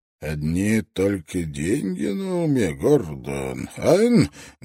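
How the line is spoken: Rough voice. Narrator (Russian): голос Мауса звучал грубо

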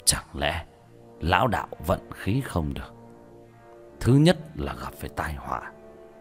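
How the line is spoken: Muttering. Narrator (Vietnamese): lẩm bẩm

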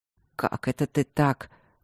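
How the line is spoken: Displeased mutter. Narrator (Russian): буркнул барон недовольно

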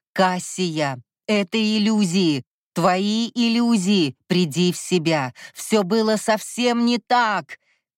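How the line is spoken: Alarmed shouting. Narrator (Russian): кричал Кай, а в его голосе звучала искренняя тревога

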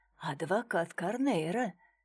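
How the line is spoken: Whispered. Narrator (Russian): также шепотом ответил Дронго

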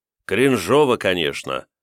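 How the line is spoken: Sighing. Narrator (Russian): вздохнул

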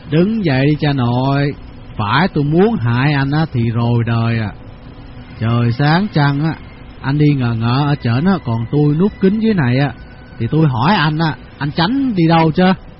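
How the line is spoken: Smiling. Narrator (Vietnamese): Tư Cầu bắt mỉm cười

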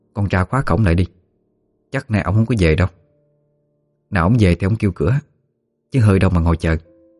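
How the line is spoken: Softly spoken. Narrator (Vietnamese): bà khẽ nói

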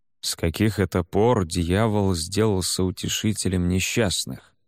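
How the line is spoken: Very quiet muttering. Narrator (Russian): пробормотал Аоскафер совсем тихо

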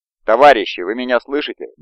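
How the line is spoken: Loud, hopeful. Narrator (Russian): громко сказала Галя, вкладывая в эти простые слова все свои надежды

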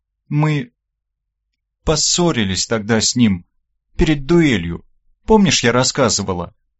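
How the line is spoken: Halting, unsure speech. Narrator (Russian): Запинаясь, неуверенно проговорила Оля

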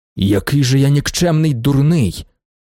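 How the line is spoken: Exclaimed. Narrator (Ukrainian): вигукнув Вокульський

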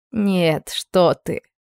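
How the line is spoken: Warm, sad woman. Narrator (Russian): Женщина грустно улыбнулась и с теплотой произнесла

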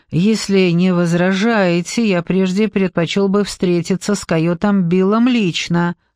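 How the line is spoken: Plain. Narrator (Russian): сказал Джекоби

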